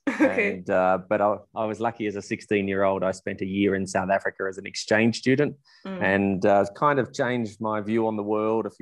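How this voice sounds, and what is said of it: Australian accent. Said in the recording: “I obviously have a funny accent compared to you ... I'm a Melbourne from Australia, born and bred”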